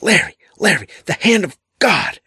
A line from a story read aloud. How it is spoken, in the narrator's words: suddenly shrieked